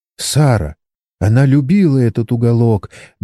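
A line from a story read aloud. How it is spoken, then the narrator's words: Trembling, Chinese woman. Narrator (Russian): дрожащим голосом произнесла китаянка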